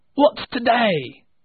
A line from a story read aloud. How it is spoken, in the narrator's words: cried Scrooge, calling down to a boy